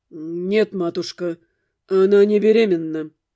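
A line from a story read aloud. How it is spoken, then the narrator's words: Through gritted teeth. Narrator (Russian): ответил он за меня сквозь зубы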